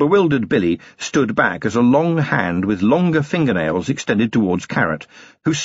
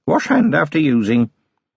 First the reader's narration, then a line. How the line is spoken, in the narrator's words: she said, in an offhand voice